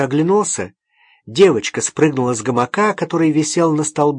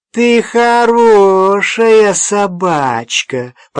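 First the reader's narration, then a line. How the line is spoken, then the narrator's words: Girl's funny deep voice. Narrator (Russian): продолжала девочка своим смешным басом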